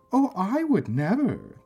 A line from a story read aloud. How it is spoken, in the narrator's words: the woman said indignantly